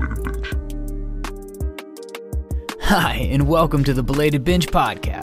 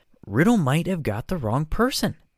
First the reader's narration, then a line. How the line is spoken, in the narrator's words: said Hermione